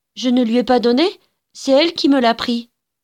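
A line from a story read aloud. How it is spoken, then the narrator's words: Quick, sly child's reply. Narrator (French): répondit vivement Ignacia, avec cette mystérieuse perfidie des enfants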